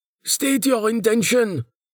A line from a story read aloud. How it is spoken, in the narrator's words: the apparent leader of the party shouted